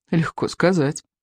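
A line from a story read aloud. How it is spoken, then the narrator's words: Sigh. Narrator (Russian): вздохнул Икинг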